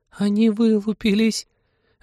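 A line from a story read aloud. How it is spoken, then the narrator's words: Joyful shriek. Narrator (Russian): Радостно взвизгнула Полина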